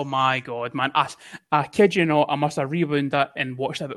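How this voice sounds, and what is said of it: Usual voice. Nothing is said of it.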